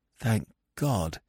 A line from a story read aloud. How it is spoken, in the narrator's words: said shakily